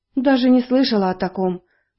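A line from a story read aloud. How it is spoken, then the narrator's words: Sighing. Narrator (Russian): вздохнула она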